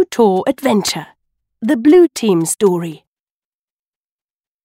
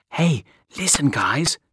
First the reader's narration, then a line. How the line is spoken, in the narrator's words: Mia said quietly to her friends